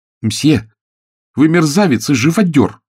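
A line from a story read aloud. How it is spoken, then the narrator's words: Shout. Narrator (Russian): крикнула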